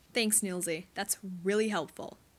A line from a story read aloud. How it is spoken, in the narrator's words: he snaps